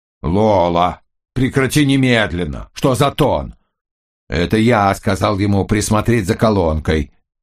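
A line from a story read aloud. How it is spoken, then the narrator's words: Shout. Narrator (Russian): крикнул Йенсен, наполовину всунувшись в окно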